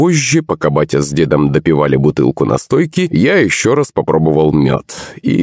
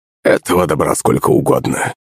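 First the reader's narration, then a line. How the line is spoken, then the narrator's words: Chuckling old man. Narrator (Russian): хохотнул дед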